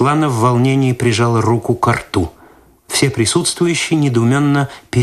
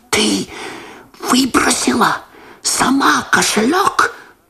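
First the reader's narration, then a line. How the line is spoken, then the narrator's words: Whispered. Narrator (Russian): прошептал Лосар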